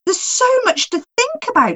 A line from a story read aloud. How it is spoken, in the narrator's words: she exclaimed